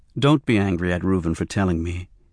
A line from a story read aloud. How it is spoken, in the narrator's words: he said quietly to Danny